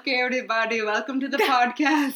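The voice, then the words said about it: Put-on Dubai-style Indian accent. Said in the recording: “I'm going to talk with my Dubai accent. ... That's a hard accent to do. ... It's Indian. Okay. But Indians probably would say it's not very Indian.”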